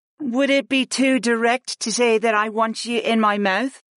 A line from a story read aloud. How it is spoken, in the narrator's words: Aaron asked in a faux innocent voice